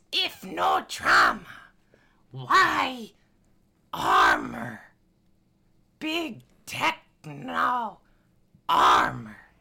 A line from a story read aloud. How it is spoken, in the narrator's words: begins to cackle again, and it says